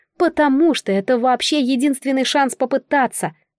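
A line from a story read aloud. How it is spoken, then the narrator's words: Exclaimed. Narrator (Russian): воскликнула Ванна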